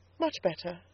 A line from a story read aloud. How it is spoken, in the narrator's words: I said calmly